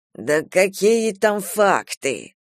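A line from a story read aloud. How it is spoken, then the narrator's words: Grumbled. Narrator (Russian): проворчал Ревякин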